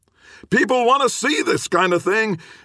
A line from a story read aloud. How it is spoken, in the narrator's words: Gibbons shouted after him